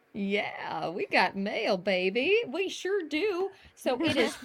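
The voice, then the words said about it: Southern US accent. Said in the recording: “Was that a southern accent that just came out there?”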